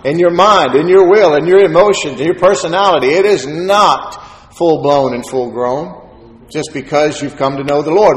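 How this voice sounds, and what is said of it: Excited, louder preaching voice. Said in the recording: “I'm just excited. As excited as I get, and I get a little louder.”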